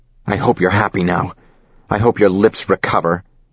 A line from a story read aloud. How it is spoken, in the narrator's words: Adam snarls